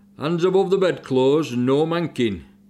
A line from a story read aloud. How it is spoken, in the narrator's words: shouting at lights out